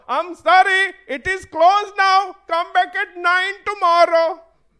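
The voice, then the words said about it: Put-on accent. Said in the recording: “I know I did an accent.”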